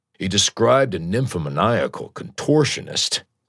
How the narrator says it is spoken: Sid said, and chuckled

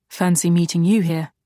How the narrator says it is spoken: he said

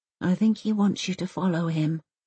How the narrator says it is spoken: mumbles Elsa without looking up

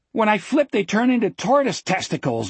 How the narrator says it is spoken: Jack said, and laughed wildly, hysterically

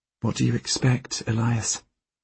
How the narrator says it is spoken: Helene asks quietly

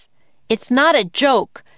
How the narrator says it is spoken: Jack shouted

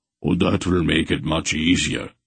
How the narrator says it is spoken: Beric commented dryly

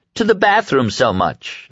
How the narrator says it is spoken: girl in the circle of spectators suggested

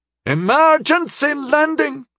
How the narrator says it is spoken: she yelled into the air as she fought for control over Fearless

